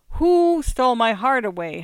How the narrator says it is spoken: howled the gramophone

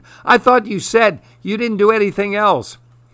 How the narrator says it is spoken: Joey screamed

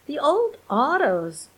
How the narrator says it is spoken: cried Simon

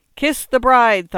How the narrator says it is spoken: thundered

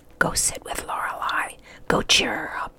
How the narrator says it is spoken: Homer whispered in his ear

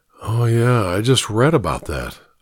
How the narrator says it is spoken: I murmured

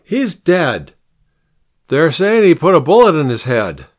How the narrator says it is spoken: the man called out after him

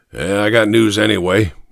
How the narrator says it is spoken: he said gruffly

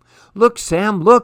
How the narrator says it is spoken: I cried

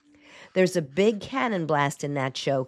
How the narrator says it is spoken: Carol laughs

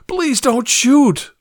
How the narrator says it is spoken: I pleaded

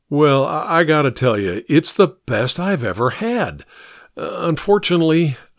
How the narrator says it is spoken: said with a sigh

